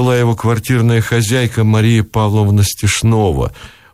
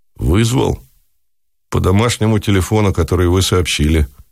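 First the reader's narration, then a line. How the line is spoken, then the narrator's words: Gloomy. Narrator (Russian): ответил дежурный мрачно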